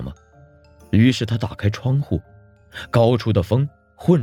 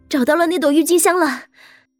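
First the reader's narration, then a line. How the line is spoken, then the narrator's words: Breathless. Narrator (Chinese): 金宁气喘吁吁地对他说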